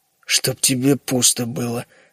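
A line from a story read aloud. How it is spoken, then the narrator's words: Muttering. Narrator (Russian): пробормотал Генри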